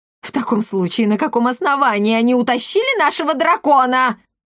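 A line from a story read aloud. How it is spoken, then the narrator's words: Indignant yell. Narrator (Russian): возмущенно завопил Макриди Гольф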